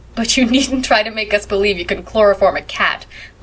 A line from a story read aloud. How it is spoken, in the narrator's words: laughed Anne